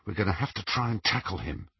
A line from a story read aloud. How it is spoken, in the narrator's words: he whispered to Ron